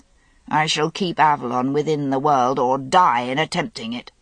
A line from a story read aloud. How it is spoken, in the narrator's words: said Vivian in that hard voice